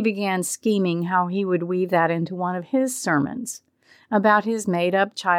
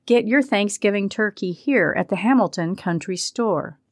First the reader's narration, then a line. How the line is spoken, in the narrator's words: exclaiming